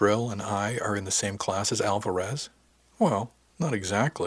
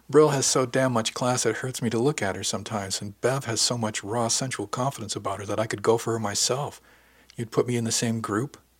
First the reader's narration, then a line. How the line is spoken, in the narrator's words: laughed